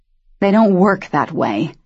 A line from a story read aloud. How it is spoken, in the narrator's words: Daniel snarled at him